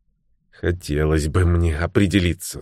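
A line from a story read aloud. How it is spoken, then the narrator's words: Plain. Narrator (Russian): сказала Таппинс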